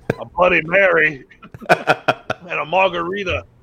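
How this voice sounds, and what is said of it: Raspy put-on voice. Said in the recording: “you got real raspy there”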